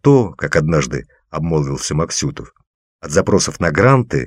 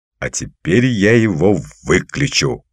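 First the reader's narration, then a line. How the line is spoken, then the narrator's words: Growled. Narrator (Russian): прорычал я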